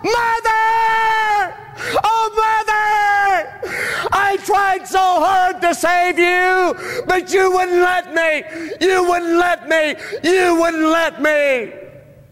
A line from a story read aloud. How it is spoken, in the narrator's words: And he would just get emotional and lose control of his emotions and just scream it out